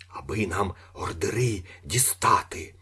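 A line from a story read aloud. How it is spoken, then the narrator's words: Whispered. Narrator (Ukrainian): прошепотів Іполит Матвійович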